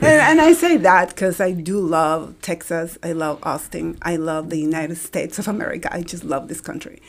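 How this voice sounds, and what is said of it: Colombian Spanish accent. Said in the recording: “My accent is from Colombia.”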